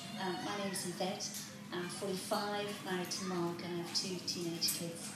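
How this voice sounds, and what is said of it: Mixed South African, Manx, Northern Irish accent. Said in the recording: “What is that accent? ... It is a mixture of living in my primary school years in South Africa and then my teenage years in the Isle of Man ... I thought it was Australia ... South Africa, Isle of Man, Northern Ireland in three equal parts”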